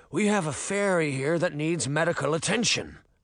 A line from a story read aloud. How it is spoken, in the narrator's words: Canis growled